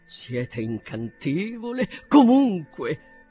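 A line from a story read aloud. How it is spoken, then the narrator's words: Awkwardly gallant exclamation. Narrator (Italian): esclamò egli con goffa galanteria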